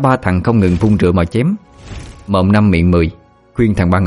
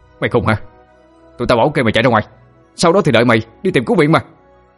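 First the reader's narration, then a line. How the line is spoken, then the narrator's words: Shouted. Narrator (Vietnamese): quát lên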